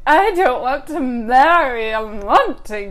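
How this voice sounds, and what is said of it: Put-on unidentified accent. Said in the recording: “I don't know what that accent was.”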